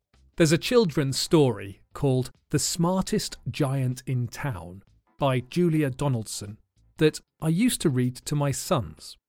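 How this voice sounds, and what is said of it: Southern English accent. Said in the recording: “my accent is now very much a, a southern accent”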